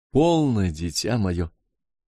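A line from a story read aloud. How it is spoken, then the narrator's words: Affectionate. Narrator (Russian): ласково проговорила Гертруда Керсан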